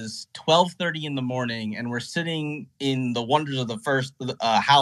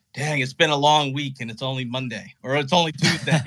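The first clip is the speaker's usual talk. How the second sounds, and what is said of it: Good impression of Jeff. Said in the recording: “That's a pretty good Jeff impression too, right?”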